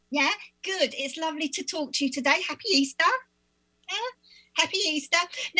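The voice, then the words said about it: Speaks with a foreign accent. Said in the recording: “Love your accent. Totally cool.”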